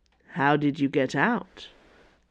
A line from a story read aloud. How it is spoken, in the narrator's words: Athos asked, in a measured voice